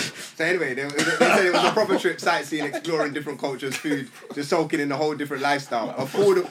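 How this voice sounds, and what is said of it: British accent. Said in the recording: “the UK accent”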